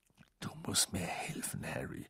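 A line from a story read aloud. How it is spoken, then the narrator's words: Murmured. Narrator (German): murmelte er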